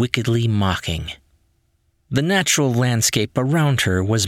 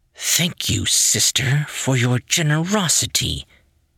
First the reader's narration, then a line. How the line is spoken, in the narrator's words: she whispered through clenched teeth